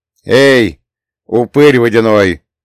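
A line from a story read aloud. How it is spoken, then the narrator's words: Loud shout. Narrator (Russian): громко крикнул я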